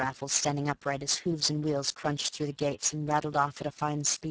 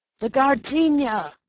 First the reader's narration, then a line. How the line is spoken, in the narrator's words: the millionaire had bawled